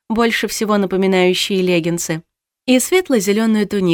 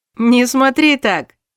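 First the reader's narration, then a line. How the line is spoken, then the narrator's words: Laughing. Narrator (Russian): засмеялся новый лесничий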